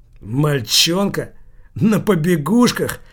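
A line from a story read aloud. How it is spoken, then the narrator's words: Laughing loudly. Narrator (Russian): Килькин принялся хохотать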